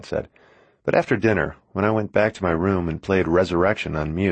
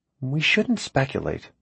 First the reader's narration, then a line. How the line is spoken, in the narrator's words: my mom said to him quietly, as if I couldn't hear or something